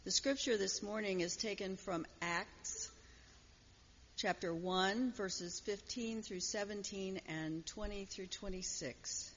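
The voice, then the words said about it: Slightly hoarse voice. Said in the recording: “Forgive my slight hoarseness.”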